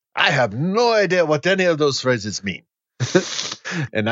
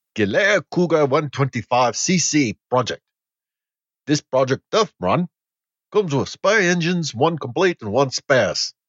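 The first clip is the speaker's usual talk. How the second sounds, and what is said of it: Poorly done put-on accent. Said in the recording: “This is a terrible accent. ... I don't know what this accent is. It's not good.”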